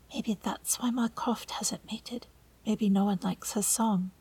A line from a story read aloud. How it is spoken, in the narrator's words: John whispers